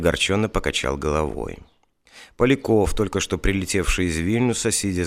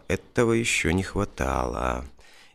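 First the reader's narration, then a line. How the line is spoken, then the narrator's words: Muttering. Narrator (Russian): Мохов пробормотал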